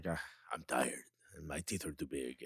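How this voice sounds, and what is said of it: Jurgen Klopp impression, German accent. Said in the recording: “What accent that is... German, I know that... It's pretty close, I think.”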